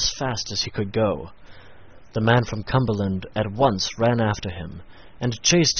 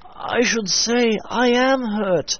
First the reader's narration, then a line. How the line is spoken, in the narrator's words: replied Solomon with a groan